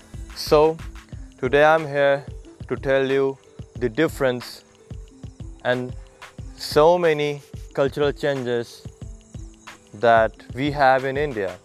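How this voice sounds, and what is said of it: Non-native accented English. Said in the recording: “Might be my accent could be different from you. ... Most of you are from USA or countries where the native language is English.”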